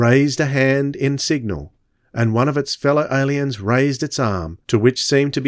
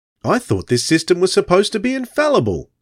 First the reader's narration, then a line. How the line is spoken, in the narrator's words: said Radnor irritably